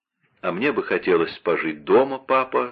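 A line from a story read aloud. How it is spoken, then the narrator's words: Plain. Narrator (Russian): сказала Наннерль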